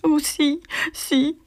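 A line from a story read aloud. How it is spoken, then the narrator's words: Sobbing, trembling. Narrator (French): sanglota Magie dont le menton tremblait convulsivement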